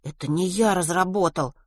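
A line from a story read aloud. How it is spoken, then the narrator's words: Embarrassed muttering. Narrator (Russian): смущенно пробормотал Веня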